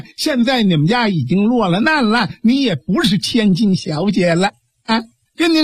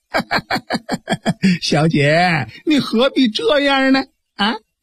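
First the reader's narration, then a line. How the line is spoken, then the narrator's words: Leering laugh. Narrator (Chinese): 吴国北 一阵淫笑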